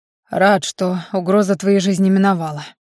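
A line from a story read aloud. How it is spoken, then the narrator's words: Low hoarse voice. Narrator (Russian): хрипло произносит низким голосом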